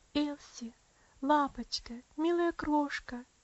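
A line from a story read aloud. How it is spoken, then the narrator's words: Soft, trembling, tender. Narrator (Russian): тихо, дрожащим голосом проговорила она, с нежностью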